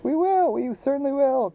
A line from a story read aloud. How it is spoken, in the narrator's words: cried the determined travelers